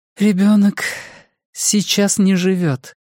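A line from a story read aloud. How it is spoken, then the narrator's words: Strained, forced out. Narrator (Russian): наконец выдавила она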